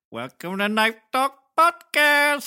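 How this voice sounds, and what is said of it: Layered impression with Apu-like accent. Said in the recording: “your impression of his impression of my impression ... It's kind of like a little Apu in there. Apu from The Simpsons.”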